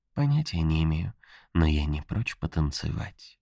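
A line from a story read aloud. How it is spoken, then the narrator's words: Whisper. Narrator (Russian): шепнула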